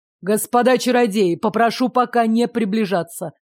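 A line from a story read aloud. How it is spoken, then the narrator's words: Growl. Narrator (Russian): рыкнул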